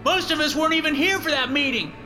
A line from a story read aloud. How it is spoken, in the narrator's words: Someone shouts out